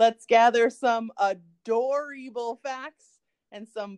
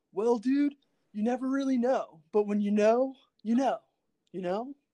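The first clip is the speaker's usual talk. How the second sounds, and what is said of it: Impression of a laid-back cartoon character. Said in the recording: “That's my impression of Crush. And also Keanu Reeves.”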